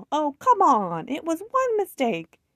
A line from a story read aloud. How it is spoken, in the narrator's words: Jason in the background yell